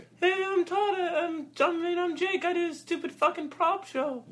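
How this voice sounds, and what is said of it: Imitates another person's voice. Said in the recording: “do an impersonation of him ... Uncanny”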